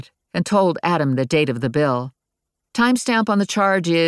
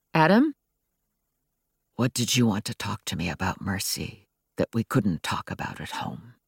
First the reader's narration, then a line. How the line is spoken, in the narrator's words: He was speaking so softly I could barely make out his words